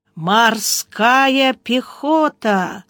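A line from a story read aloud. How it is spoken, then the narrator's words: Drawled, strange intonation. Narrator (Russian): протянул Гарайло с непонятной интонацией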